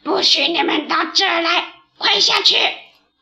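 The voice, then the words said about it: Rough, hoarse crow voice. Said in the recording (Chinese): “用粗哑的声音说”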